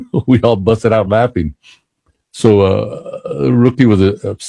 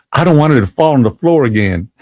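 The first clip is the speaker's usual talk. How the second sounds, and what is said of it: Deep Southern accent. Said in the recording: “replied in a deep southern accent”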